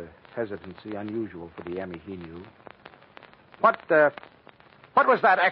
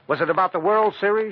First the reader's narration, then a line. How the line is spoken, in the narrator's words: she asked, as though trying desperately hard to prompt him